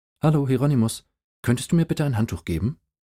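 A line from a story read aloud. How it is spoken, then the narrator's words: Bewildered stammering. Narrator (German): Ich stammelte, stotterte, brabbelte verdutzt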